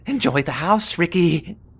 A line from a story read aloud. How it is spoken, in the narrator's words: the old woman yelled